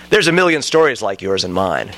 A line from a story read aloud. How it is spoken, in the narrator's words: said